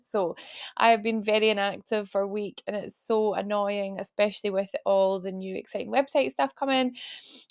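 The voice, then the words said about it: Ill, croaky, strained voice. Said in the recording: “I sound like a Dalek because I'm like, my voice is a bit pants ... when you're ill”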